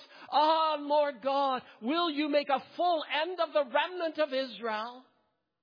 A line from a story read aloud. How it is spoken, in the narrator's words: Ezekiel fell on his face and cried with a loud voice